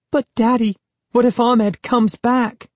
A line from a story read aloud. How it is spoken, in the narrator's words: Sari cried, sounding really frightened